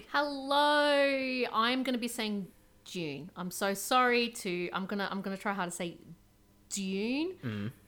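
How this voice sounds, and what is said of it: Australian accent. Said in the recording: “the Aussie accent, it's I'm going to sound like Dune ... it's going to sound like the month of June to everyone else outside of Australia”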